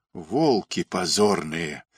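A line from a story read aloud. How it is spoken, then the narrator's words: Hoarse shout. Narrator (Russian): захрипел, вспомнив, что именно так нужно кричать в подобных случаях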